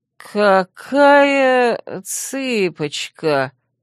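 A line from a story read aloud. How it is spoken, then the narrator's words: Less confident drawl. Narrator (Russian): Уже как-то менее уверенно протянул он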